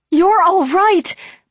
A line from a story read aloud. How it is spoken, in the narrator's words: Bobby cried, beaming at him in relief